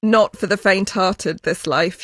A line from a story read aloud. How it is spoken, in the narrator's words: she says